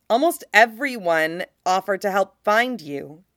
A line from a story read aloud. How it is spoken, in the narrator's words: he says